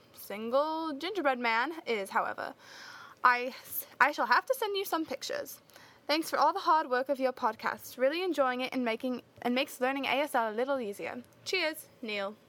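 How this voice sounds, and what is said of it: Put-on accent, not very convincing. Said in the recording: “I hope my accent wasn't too dreadful ... I'm sure that it was”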